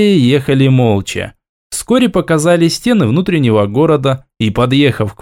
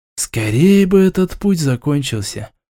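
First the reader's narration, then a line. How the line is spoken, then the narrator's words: Sighing. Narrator (Russian): вздохнул Нараиль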